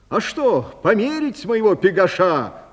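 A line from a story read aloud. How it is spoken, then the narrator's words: Shout. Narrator (Russian): крикнул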